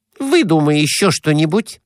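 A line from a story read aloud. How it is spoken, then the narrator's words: Snapped. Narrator (Russian): огрызнулась Глафира Семеновна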